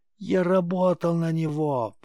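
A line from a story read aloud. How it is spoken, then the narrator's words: Shrieking victim. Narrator (Russian): провизжала жертва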